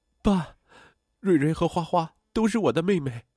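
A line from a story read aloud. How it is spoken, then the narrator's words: Crying daughter. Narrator (Chinese): 女儿哭着说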